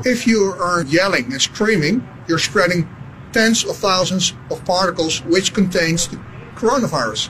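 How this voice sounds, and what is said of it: Dutch accent. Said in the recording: “That's a Dutch accent? I wouldn't have been able to place that.”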